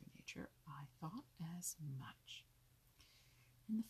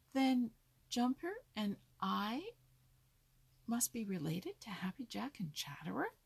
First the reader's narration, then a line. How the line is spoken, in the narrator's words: he cried